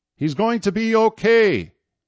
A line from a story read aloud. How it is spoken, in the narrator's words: he yelled up